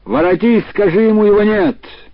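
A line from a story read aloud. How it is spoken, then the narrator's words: Shouted. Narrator (Russian): тот крикнул ей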